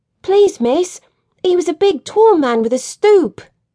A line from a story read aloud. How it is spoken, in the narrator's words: said the small boy excitedly